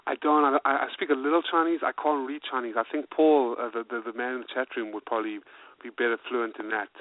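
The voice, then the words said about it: British-sounding accent with Asian tinge. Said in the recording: “I can tell you have some Asian in your voice ... I can hear your, uh, you know, the British accent, if you will”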